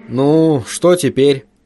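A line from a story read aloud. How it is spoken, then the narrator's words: Gloomy question. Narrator (Russian): мрачно осведомился Хантон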